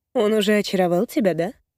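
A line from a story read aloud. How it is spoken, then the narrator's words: Eerily calm, regretful. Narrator (Russian): Опять пугающе спокойно, но в голосе ноты сожаления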